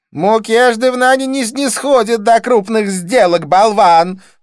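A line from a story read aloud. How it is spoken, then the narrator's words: Scornful snort. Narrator (Russian): фыркнула Дива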